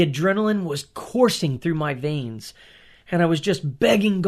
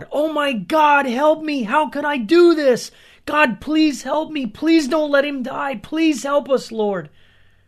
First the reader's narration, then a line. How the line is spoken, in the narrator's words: panicked, screaming out loud